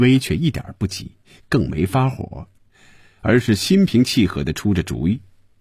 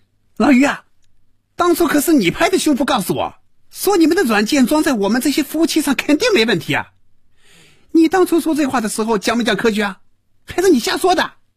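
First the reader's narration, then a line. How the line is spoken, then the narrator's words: Loud furious shouting. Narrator (Chinese): 赵平凡被余威彻底激怒了，真要骂人了，大声嚷着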